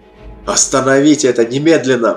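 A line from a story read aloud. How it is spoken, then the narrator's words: Hiss. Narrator (Russian): прошипел Кадгар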